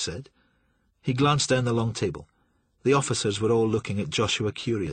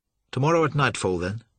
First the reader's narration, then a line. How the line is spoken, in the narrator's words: York said